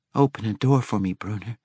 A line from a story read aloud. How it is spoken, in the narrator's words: Regis whispered absently